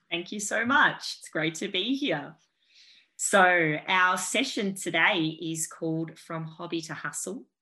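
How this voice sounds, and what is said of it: Australian accent. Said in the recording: “the lovely Australian accent”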